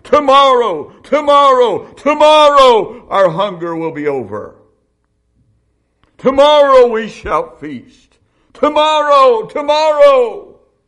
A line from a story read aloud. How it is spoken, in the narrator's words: Hear them shouting